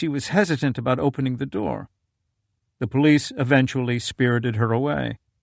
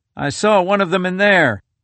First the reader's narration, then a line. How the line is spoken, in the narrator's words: One had barked something like